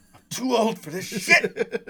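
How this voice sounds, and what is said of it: Imitates another person's voice. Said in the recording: “the way Danny Glover says it ... It's a terrible impression”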